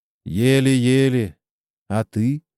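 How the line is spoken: Timid question. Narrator (Russian): робко спросил Страхиня

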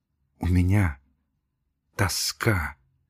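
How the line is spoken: Whispering. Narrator (Russian): прошептала Надежда Федоровна

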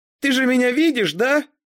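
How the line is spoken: Shout. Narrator (Russian): крикнула я

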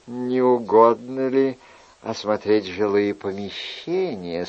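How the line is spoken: Very gentle. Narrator (Russian): спросила госпожа Фурнишон так ласково, как только могла

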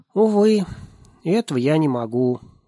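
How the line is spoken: Sighing little one. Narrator (Russian): вздохнул крошка Нильс Карлсон

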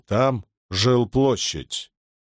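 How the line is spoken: Stern weighty reply. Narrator (Russian): строго посмотрел на него и веско ответил

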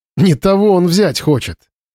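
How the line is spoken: Bursting out laughing. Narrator (Russian): расхохоталась

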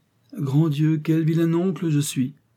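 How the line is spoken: Sudden exclamation. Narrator (French): s'écria tout à coup Mr

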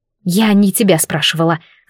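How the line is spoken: Hissed into the ear. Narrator (Russian): зашипела мне на самое ухо Вита

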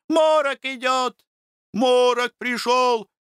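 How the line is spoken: Boys shouting. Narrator (Russian): кричали мальчишки-паденщики

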